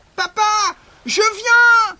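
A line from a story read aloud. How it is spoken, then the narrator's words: Screamed. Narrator (French): hurla Pinocchio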